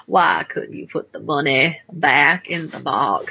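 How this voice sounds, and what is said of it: Imitated film character's accent. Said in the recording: “this accent ... I'm not that good at it, but in my mind, it sounds great ... It sounded pretty good ... mostly channeling Forrest Gump”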